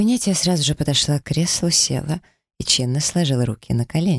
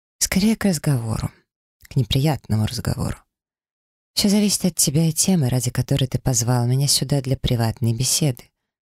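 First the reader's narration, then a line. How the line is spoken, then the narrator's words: Calm, unembarrassed. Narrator (Russian): спокойно ответила ему, совершенно не смущаясь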